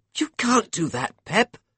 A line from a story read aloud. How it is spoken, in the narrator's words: Caro spluttered